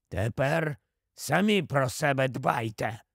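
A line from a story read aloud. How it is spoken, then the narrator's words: Grumbled. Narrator (Ukrainian): буркнув Еберфорс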